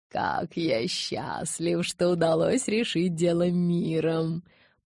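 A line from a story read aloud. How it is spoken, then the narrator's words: Purring. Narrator (Russian): промурлыкал он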